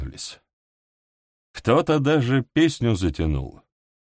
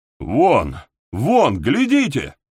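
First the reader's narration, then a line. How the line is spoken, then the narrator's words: Exclaiming. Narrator (Russian): Воскликнул один из бойцов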